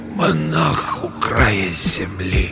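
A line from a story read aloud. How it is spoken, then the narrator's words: Hoarse breathy repetition. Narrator (Russian): Усыскин хрипло вдохнул воздух и повторил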